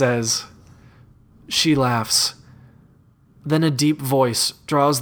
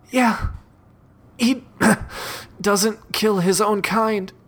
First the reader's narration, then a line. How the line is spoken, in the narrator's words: She gasps for breath and responds